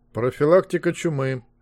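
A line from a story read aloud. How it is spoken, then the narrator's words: Bored dictating tone. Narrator (Russian): скучным тоном диктовал Змейк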